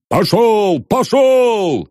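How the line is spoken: Dashing shout, police chief. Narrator (Russian): лихо крикнул полицмейстер

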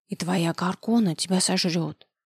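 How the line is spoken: Eerie whisper. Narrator (Russian): страшным шепотом озвучила Лизетта

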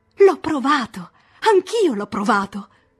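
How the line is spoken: Plain. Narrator (Italian): rispose lei

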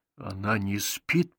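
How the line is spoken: Whisper. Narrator (Russian): прошептал

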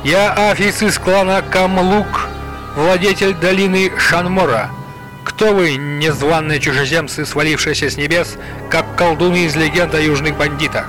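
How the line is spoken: Thunderous proclamation. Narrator (Russian): Громовым голосом он провозгласил

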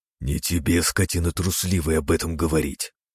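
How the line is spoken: Growled. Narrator (Russian): прорычал Синицын

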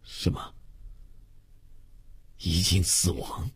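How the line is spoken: Hoarse stunned stammering question. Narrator (Chinese): 他的牙齿和舌头都有些不听指挥，口齿发僵，哑声呆问

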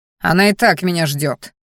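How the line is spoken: Growled. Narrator (Russian): рыкнул я

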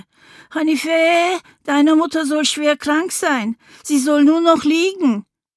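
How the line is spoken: Neighbor calling after. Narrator (German): Die Nachbarin rief mir hinterher

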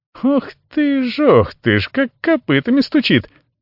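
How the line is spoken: Rattling laugh. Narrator (Russian): дребезжащий засмеялся Туфи

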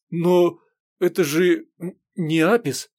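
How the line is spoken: Nauseous stammering question. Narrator (Russian): борясь с дурнотой, бледнее и заикаясь, спросил

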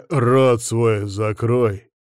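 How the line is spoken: Barked. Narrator (Russian): рявкнул я

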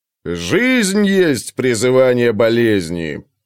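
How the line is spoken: Giant warrior booming from darkness. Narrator (Russian): прогудел из темноты воин-великан

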